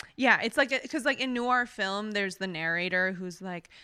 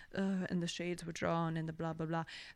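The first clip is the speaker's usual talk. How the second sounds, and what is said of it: Bad noir narrator impression. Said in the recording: “terrible noir impression”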